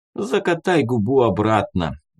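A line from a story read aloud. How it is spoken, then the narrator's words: Sighing. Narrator (Russian): вздохнул Арман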